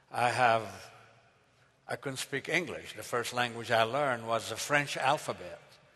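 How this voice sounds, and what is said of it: Foreign immigrant accent. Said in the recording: “If you notice my accent, of course, I am an immigrant”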